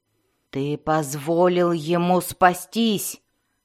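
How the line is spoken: Mother growling angrily. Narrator (Russian): зарычала на сына мать Сиинафай

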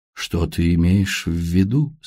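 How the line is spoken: Plain, great-grandmother. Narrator (Russian): спросила прабабушка

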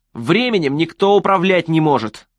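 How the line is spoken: Shouting. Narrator (Russian): закричал Престон

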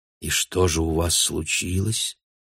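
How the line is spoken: Soft voice from behind. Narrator (Russian): мягко спросил голос Бруно за спиной

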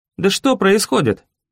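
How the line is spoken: Exclaimed. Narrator (Russian): воскликнул я

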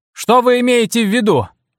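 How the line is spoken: Shouting. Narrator (Russian): крикнул я

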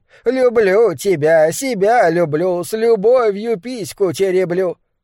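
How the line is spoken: Shrill thin singing. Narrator (Russian): Пронзительным тонким голосом Мэнкс пропел

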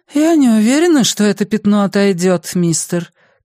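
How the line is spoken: Sighing. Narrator (Russian): Клэр вздохнула

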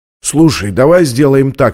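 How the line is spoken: Plain. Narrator (Russian): сказал он

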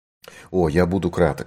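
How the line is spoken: Plain. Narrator (Russian): ответил великий сыщик

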